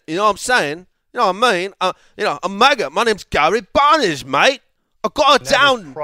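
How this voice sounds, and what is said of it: Bad put-on British accent. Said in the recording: “Probably the worst British accent I've ever heard.”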